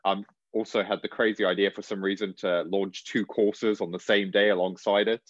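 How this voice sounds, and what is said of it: Croaky, strained voice. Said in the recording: “my voice sounds a little bit croaky today, because I've been filming course content all day”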